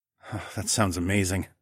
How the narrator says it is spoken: I sighed

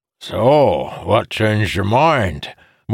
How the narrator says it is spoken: Morjadayan bellowed

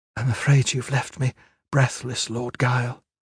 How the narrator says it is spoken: Caris murmured

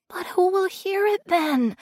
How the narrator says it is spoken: He whispered, horrified

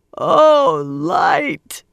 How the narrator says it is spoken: she wailed

